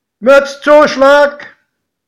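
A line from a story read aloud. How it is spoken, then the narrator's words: Conductor calling out. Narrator (German): rief der Schaffner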